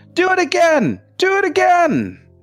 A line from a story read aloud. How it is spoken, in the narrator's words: she's just screaming